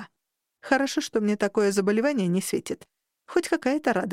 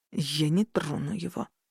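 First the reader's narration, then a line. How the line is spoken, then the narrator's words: Menacing hiss through teeth. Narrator (Russian): сквозь зубы прошипел избранник хранительницы и уточнил угрожающе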